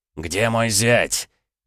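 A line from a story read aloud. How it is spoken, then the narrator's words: Loud startling bark. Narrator (Russian): Рявкнул он так, что даже Лис вздрогнул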